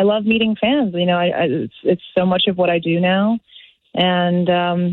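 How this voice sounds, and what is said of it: Usual voice. Nothing is said of it.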